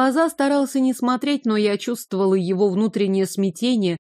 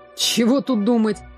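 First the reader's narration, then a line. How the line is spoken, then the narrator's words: Grumbling mutter. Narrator (Russian): пробурчал брат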